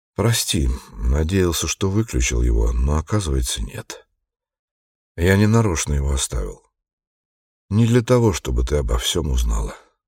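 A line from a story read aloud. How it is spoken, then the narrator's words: Sighing. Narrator (Russian): Он вздохнул и произнес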